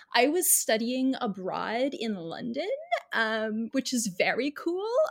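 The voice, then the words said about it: Pretentious white girl voice. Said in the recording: “with my best pretentious white girl voice”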